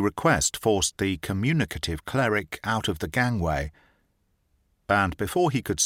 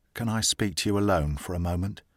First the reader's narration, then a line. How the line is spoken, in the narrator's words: said Alice Armstrong in a low tone